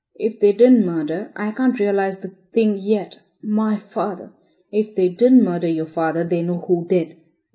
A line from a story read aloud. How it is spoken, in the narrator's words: exclaimed Spargo